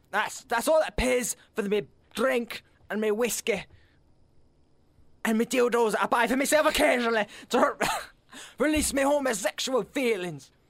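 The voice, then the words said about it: Scotty from Star Trek impression. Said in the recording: “doing fucking Scotty impersonations for Star Trek”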